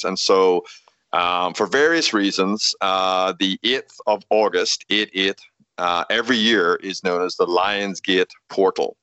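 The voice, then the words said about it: Speaker's own noticeable accent. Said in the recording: “with my accent, I need to spell that probably”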